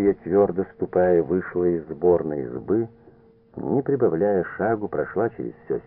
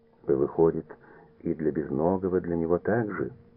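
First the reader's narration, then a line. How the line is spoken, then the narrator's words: Restrained calm question. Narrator (Russian): сдерживая себя, спокойно спросила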